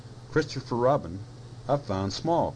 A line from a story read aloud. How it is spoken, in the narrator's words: cried Piglet